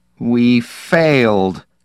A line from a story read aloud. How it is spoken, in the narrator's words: Perrine groaned